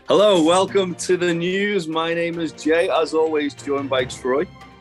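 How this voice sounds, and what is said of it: Hoarse, congested voice. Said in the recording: “my voice is on its way out ... I'm losing my voice and I'm full of cold already.”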